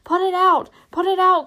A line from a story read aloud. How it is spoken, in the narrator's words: cried Mary